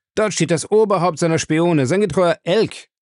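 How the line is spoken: Triumphant shout. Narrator (German): rief er triumphierend

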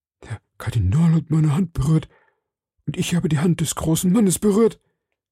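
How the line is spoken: Call. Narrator (German): rief Bonacieux

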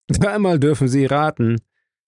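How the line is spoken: Cheerful laughing. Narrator (German): Der andere lachte fröhlich

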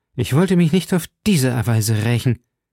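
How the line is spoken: Stammered. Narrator (German): stammelte Milady

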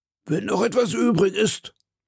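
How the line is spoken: Sneering murmur. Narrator (German): murmelte Athos mit höhnischer Stimme

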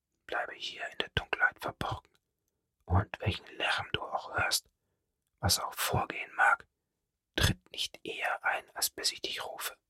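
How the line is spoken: Soft-spoken. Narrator (German): sagte leise zu ihm

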